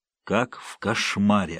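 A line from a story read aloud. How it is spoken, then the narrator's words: Plain. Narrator (Russian): ответил Ленц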